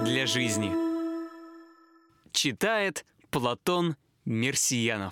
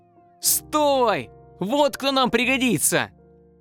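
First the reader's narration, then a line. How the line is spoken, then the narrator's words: Shouted. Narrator (Russian): Вдруг один из них, в майке с черепом, закричал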